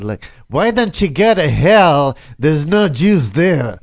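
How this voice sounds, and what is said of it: Put-on Jewish accent. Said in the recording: “Are you supposed to say it like in the Jewish accent?”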